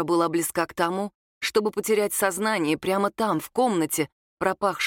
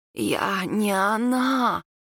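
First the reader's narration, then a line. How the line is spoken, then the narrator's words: Hoarse, strained. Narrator (Russian): хрипло выговорила Нура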